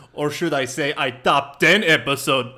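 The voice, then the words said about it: Poor imitation of another person's voice. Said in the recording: “that's a really bad accent. That didn't sound like him at all. ... Not even close. ... It didn't even sound like a bad impression.”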